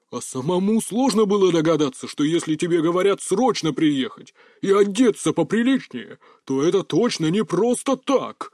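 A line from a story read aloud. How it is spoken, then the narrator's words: Growl. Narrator (Russian): рыкнул он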